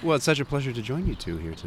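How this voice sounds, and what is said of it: Exaggerated radio announcer voice. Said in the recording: “I'm going to lay my radio voice on thick.”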